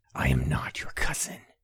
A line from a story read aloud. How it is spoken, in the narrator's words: hissed